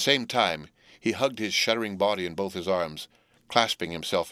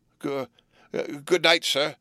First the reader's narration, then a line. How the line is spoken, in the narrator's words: I faltered